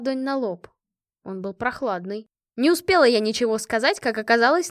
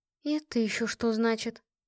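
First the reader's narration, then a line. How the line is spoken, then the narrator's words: Whispered question. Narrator (Russian): поинтересовалась я почему-то шепотом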